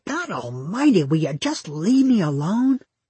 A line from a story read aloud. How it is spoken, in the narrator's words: growling